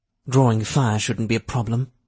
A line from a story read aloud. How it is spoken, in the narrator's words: she said dryly